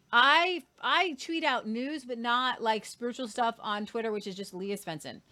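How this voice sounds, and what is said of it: Irish accent. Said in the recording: “Irish news for your accent”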